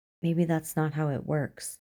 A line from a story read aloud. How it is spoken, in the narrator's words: said softly